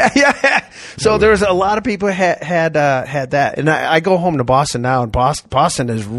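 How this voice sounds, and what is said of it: Usual voice. Nothing is said of it.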